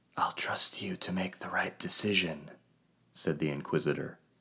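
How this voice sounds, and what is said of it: Whispered line. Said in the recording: “followed by a whisper.”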